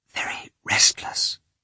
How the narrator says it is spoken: said the head nurse in a whisper

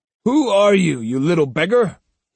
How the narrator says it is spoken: he growled

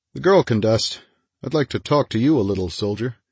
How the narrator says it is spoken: He added in a casual tone

